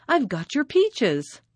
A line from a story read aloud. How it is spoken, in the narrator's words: she cried